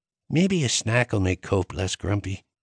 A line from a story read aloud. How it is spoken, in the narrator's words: Luca mumbled